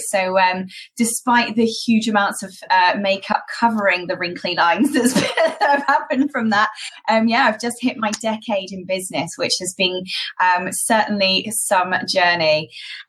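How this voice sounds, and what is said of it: British English accent. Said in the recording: “I did actually start my education and training business in the UK, as you can probably tell from my accent”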